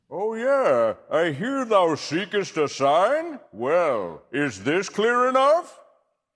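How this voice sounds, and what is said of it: Colbert doing a voice as God. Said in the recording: “Colbert mimicking God”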